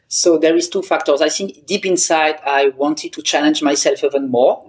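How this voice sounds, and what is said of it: Non-native English accent. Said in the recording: “I don't have a perfect English accent”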